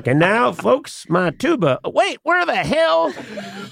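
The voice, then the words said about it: Bad hillbilly-ish imitation of another's voice. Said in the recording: “my Reba impression... awful... A little hillbilly-ish... it's really bad.”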